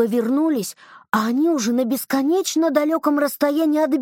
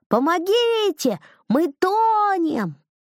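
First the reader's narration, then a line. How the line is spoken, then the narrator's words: Screaming. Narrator (Russian): Лиза с Данилом как заорали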